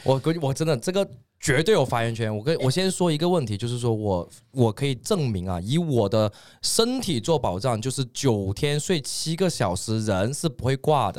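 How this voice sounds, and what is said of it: Regional accent sounding like a salesman. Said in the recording (Chinese): “他这个口音真的很像个骗子 ... 就感觉刚才要卖药了”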